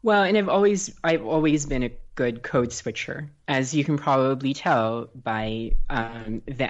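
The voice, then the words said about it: American accent. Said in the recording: “accent that people are hearing now, which is not at all my native accent. Um, but when I'm talking to Americans, this is the accent that I have”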